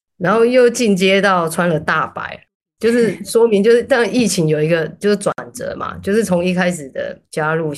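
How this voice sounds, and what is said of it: Taiwanese-accented Mandarin. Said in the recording (Chinese): “因为我的口音，所以有一些居民啊，他就会说：“哎，你是台湾人吗？””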